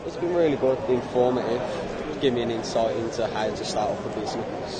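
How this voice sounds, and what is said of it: Birmingham (Brummie) English accent. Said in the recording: “I can hear from your Brummie accent”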